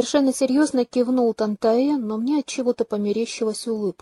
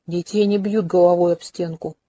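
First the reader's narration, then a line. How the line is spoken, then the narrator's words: Gloomy objection. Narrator (Russian): мрачно возразил Максимилиан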